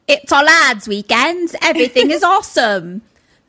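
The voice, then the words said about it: Attempted British accent. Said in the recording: “Why can't I do a British accent?”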